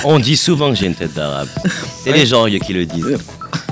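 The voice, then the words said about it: Marseille French accent. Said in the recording (French): “et un bel accent en plus. ... là je suis de Marseille. ... ensoleillé”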